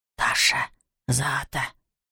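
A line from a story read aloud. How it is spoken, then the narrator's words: Whispered. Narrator (Russian): прошептал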